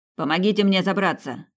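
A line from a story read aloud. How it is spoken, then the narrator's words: Shouted. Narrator (Russian): крикнул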